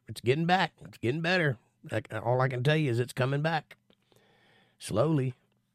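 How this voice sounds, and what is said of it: Nasal, tired-sounding voice. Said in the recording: “I got a little bit of a nasally thing going on because I did 2 shows this weekend and I sang on both shows. So my voice is a little tired”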